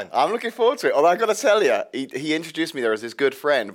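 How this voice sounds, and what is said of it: Noticeable foreign accent. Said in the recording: “and an accent.”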